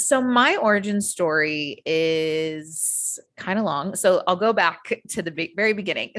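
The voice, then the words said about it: American accent. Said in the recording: “I am originally from the US. You can probably tell from my accent.”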